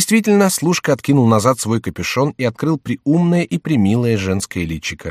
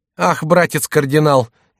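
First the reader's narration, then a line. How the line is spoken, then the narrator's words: Speaking through laughter. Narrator (Russian): говорила герцогиня, не переставая хохотать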